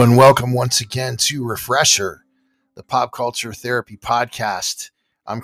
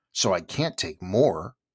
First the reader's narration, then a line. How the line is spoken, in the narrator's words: Alice replied in an offended tone